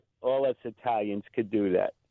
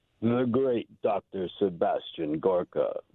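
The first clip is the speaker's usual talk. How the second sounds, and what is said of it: Imitates another person's voice. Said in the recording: “That's a Piscopo impression. That's a pretty good Piscopo impression.”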